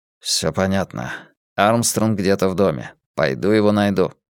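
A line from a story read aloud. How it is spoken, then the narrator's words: Anxious, gloomy voice. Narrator (Russian): тревожным, угрюмым голосом произнес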